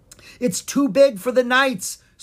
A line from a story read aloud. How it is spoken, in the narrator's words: Sir Gavin exclaimed